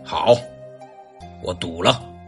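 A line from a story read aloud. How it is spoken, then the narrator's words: Deep, deliberate voice. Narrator (Chinese): 萧环山沉吟了一下，沉声说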